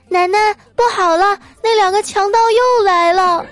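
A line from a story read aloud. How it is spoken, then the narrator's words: Loud shout. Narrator (Chinese): 我闺女大声的喊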